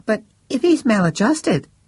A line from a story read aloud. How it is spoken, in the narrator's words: said the friend, looking at Max nervously